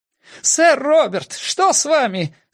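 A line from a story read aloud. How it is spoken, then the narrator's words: Shouted. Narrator (Russian): закричал я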